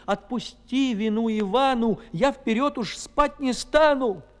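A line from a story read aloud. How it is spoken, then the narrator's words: Sobbing plea. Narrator (Russian): Иванушка заплакал и, рыдаючи, просил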